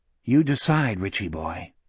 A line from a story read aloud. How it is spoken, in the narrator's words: Jack said softly